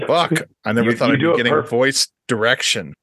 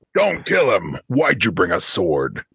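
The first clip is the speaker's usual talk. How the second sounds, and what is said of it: Stern Batman character voice. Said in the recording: “In a Batman voice. ... Nope. It's too stern.”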